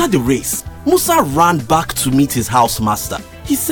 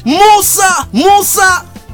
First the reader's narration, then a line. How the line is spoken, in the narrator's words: The crowd shouted